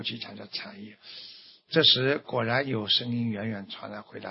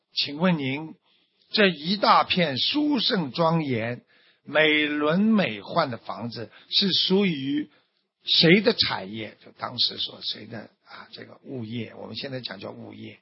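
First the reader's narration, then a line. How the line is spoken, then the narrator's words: Loud, joyful, amazed asking. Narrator (Chinese): 他非常难忍呐，非常难忍惊讶之情啊，他非常难忍，便欢喜的大声询问道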